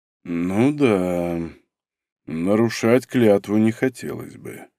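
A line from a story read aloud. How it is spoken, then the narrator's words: Muttered. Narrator (Russian): пробормотал он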